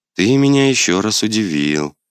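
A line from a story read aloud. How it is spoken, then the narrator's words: Calm young woman. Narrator (Russian): спокойно сказала девушка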